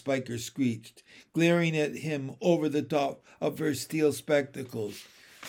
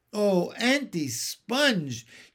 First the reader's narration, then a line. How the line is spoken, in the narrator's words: James cried out